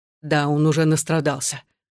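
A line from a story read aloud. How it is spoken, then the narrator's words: Low, through teeth. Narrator (Russian): сквозь зубы сказал Александр, понижая голос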